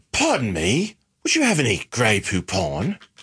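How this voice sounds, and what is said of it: Put-on British accent. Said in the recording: “I want to hear your British accent.”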